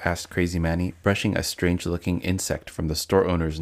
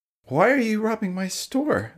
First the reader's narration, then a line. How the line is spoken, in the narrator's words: exclaimed Crazy Manny, confused and frightened